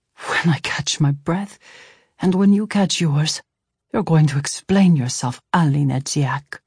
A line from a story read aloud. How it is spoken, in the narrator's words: Tomas panted